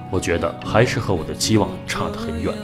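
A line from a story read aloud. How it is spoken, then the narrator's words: Sighing. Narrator (Chinese): 他叹了一口气说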